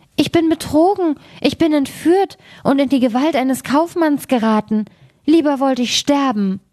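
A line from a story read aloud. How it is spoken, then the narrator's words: Frightened cry. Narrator (German): rief sie erschrocken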